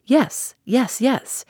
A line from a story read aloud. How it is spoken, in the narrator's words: he exclaimed eagerly